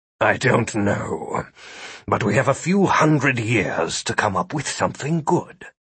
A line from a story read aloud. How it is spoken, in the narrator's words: Philip muttered